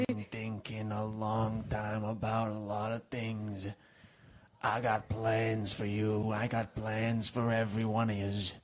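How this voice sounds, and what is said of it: Low, gruff Italian-American accent. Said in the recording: “do you sound like a northeastern Italian immigrant all of a sudden? ... My voice got low ... you sound like an angry Sebastian Maniscalco”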